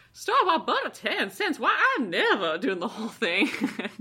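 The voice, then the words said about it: Put-on Southern US accent. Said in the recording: “She's doing that Olivia de Havilland in The Swarm southern accent.”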